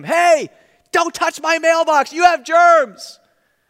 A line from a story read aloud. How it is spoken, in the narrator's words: someone yelled out at him